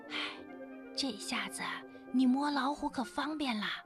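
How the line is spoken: Soft-spoken. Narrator (Chinese): 爸爸轻声地说

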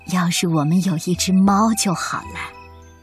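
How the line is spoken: Old woman sighing. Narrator (Chinese): 老奶奶叹了口气说

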